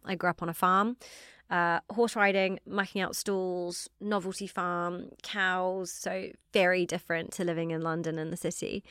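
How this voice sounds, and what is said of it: New Zealand accent. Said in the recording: “slightly strange accent, I'm from New Zealand”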